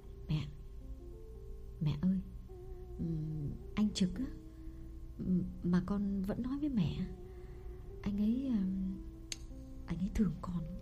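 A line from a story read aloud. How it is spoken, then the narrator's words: Trembling, uneasy confession. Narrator (Vietnamese): Phượng bứt rứt chịu không nổi, đành run run thú thật với mẹ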